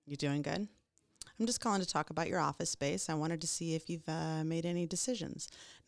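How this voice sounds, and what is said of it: Flat, boring monotone delivery. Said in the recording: “almost sound nauseatingly boring... monotone. You're monotone. You're indifferent”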